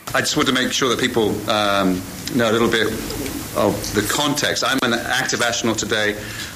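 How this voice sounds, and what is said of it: British accent. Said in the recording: “my British accent's”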